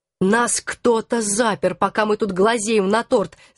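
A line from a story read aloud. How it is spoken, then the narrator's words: Growling. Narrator (Russian): зарычал Алекс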